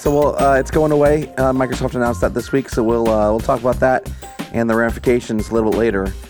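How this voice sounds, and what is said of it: Hoarse, partly lost voice. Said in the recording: “semi-lost my voice from a Blink-182 concert ... That's why I sound a little different than normal ... his Blink-182 voice ... it was very lost”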